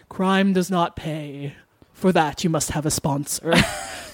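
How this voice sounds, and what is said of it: Impression of Alfred Hitchcock. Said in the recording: “Good impression.”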